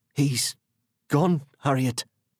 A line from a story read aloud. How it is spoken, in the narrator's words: Sam croaked eventually